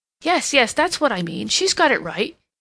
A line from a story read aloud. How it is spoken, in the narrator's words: he exclaimed